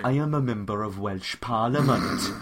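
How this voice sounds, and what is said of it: Spot-on put-on Welsh accent. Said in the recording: “What is that accent? ... Did you pick up a Welsh accent ... Because that is spot on.”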